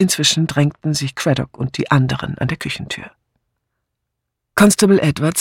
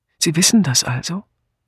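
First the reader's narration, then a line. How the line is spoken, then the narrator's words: Calm speech. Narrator (German): Miss Blacklock, die ganz ruhig geworden war, sagte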